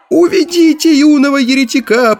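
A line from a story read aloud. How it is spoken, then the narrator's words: Shrill squeal, old chanter. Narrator (Russian): пронзительно взвизгнул старейший песнопевец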